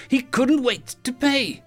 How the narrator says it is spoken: Dio said brightly

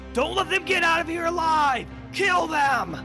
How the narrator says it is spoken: he's going to shout back

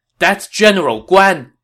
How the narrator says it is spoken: he exclaimed

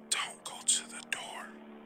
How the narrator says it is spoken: Ben whispered behind Lana

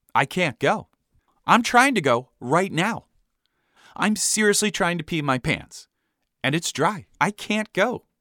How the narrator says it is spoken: Brendan responded calmly

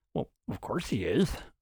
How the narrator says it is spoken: Martin muttered to himself

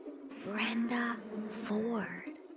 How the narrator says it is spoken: out of the darkness beside me, the whisper came

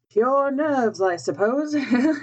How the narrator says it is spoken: he said aloud, with a forced laugh

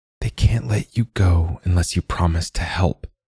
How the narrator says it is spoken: Damien whispered

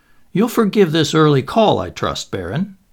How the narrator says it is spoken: he said cheerfully

